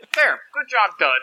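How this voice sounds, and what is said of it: Character voice of Seuss. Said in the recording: “that was such a good Seuss impression... That was a really good Seuss.”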